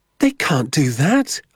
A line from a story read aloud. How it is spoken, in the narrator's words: I cried